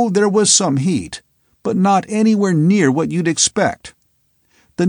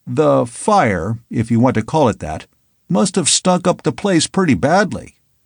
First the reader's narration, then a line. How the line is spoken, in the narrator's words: said one of the men dryly